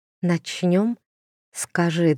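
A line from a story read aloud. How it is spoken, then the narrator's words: Whisper. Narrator (Russian): шепнула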